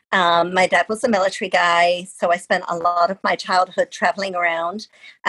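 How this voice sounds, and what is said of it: British accent. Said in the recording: “you can tell by my voice, but I am British”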